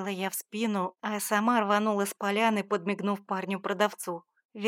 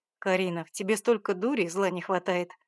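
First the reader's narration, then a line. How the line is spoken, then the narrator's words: Grumbled. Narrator (Russian): буркнул он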